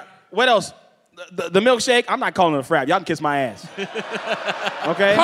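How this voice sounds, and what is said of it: Usual voice. Nothing is said of it.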